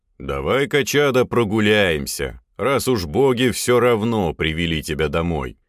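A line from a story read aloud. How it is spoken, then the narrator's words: Old man's decisive bass. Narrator (Russian): Решительно пробасил дед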